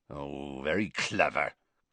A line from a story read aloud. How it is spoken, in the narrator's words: growled Hagrid